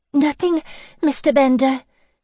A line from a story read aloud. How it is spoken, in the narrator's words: she gasped